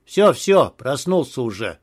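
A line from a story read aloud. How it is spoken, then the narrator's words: Displeased grumbling. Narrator (Russian): Заворчал недовольным голосом Антон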